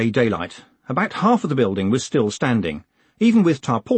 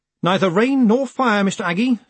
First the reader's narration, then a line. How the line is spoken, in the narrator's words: said Moist sharply